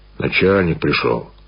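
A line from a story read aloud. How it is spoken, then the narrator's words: Said sternly. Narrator (Russian): Связной строго сказал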